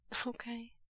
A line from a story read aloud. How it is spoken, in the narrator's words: Wei Ying gets out, his voice as unsteady as his knees